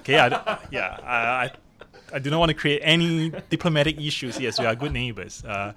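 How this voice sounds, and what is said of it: Singaporean accent. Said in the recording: “as you can probably tell from my accent, I'm not from Hong Kong... I'm a Singaporean”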